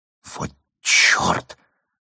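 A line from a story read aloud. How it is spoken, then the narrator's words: Barely audible whistle. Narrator (Russian): присвистнула она едва слышно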